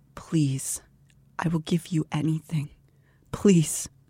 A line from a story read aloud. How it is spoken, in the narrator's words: she weeps and quietly pleads